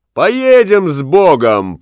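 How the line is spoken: Girl's shout. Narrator (Russian): крикнула смазливая девчонка

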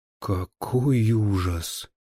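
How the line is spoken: Shaken official's whisper. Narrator (Russian): прошептал чиновник, на которого смерть его коллеги подействовала сильнее, чем смерть двух наших товарищей

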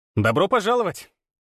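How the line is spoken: Cheerful, playful greeting. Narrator (Russian): Весело и задорно поприветствовала дверь

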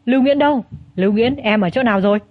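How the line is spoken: Loud shout. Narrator (Vietnamese): Bông Phong hét lớn

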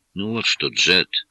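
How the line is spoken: Peaceable tone. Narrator (Russian): миролюбивым тоном заметил

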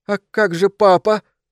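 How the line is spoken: Sobbing. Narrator (Russian): всхлипнул

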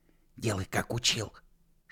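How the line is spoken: Whisper. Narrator (Russian): шепнул лысый

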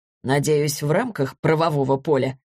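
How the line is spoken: Snorting. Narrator (Russian): хмыкнул Борис

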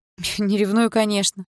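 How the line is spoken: Snorting. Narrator (Russian): фыркнула

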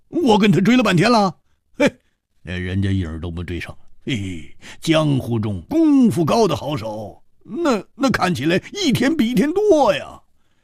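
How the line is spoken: Wry rueful laugh. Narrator (Chinese): 胡铁花苦笑着说

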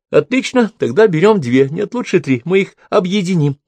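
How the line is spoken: Laughing. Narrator (Russian): засмеялась Брук

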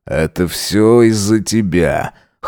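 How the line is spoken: Snorting. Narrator (Russian): хмыкнул Джек

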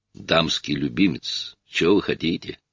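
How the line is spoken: Calm. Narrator (Russian): спокойно заметил Бейли

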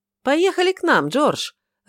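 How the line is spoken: Joyful. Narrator (Russian): радостно подхватил Филипп

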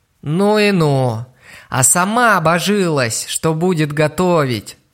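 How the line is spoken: Sighing. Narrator (Russian): Вздохнул он

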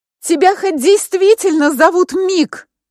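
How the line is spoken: Shout after someone. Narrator (Russian): крикнула я ему вдогонку

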